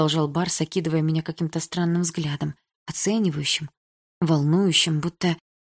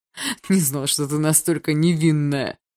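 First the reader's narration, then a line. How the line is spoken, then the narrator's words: Mocking drawl. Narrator (Russian): протянул он насмешливо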